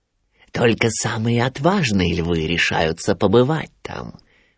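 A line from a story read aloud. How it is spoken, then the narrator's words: Whispering. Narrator (Russian): нашептывал Шрам Симбе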